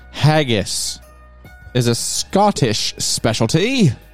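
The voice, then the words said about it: Poor attempt at Scottish accent. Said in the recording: “I don't have a good Scottish. That was not good. I don't know what a Scottish accent is like.”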